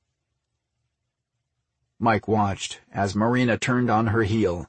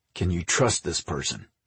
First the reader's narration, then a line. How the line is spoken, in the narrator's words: Mike asked, in a steely voice